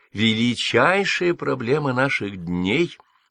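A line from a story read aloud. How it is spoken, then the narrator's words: Falsely sweet tone. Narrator (Russian): притворно сладким тоном говорила королева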